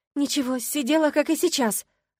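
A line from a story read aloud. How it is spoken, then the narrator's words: Snapping retort. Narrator (Russian): огрызнулась я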